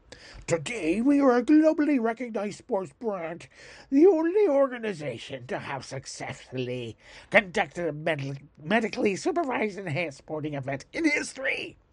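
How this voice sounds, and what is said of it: Made-up put-on accent. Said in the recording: “accent totally made up on the spot, right here, right now”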